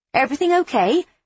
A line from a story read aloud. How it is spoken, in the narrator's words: I say brightly